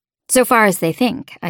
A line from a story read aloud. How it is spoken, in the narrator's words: said